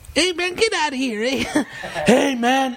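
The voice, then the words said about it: Impression of a friend's voice. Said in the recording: “Give us an impersonation of Mando or something and Pops.”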